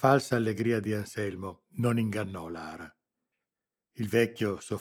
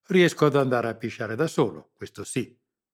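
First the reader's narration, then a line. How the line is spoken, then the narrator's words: Old man's curt reply. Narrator (Italian): replicò seccamente il vecchio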